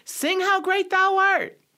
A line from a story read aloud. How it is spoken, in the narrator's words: somebody shouted